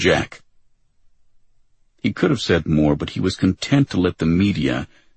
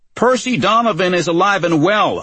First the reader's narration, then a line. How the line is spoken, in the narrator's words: a reporter shouted